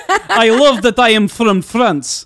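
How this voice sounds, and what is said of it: Put-on French accent. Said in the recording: “Listen to my French accent.”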